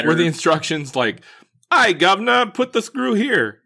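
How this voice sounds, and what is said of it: Mock British accent. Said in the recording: “that's my best accent”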